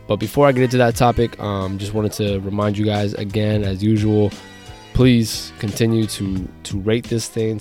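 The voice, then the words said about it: Slightly congested voice. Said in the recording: “feeling a little under the weather ... You may still hear it in my voice a little bit today. Still got a little bit of congestion”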